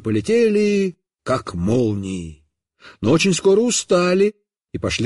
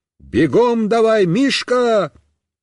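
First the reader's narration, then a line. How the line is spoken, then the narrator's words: Shout. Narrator (Russian): закричал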